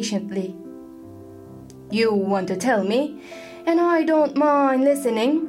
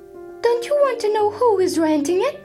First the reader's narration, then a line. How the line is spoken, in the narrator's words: cried Mrs